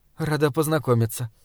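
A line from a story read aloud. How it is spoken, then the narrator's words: Mumble. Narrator (Russian): пробормотала Бальведа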